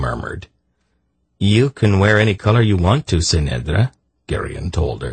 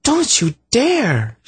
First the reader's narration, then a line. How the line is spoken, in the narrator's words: she gasped